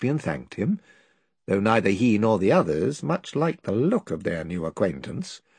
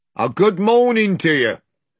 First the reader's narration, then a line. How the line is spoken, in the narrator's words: one of whom, a big, black-haired fellow, shouted out